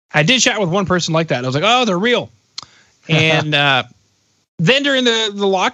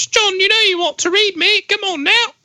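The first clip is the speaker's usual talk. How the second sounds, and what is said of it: Put-on working-class British accent. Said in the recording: “British accent ... not an intelligent British accent ... more like a coal miner's child”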